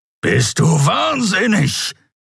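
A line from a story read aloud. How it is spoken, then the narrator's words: Growled. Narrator (German): knurrte der Skria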